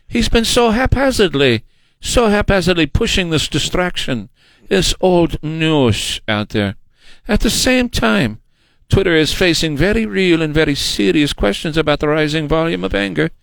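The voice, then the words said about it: Put-on German accent. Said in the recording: “I have a hard time doing this without it being in a German accent”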